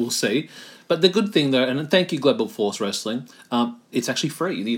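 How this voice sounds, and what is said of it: Usual voice. Nothing is said of it.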